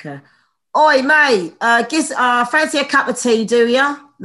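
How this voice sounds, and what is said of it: Put-on Cockney English accent. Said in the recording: “the Cockney accent ... they're very Essexy ... That's how I teach him to, you know, do the Cockney English.”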